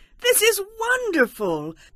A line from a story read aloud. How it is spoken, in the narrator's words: Naomi exclaimed